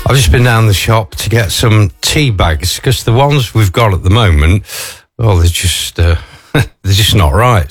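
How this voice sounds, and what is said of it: Out of breath. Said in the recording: “Probably sound a bit out of breath, because I am.”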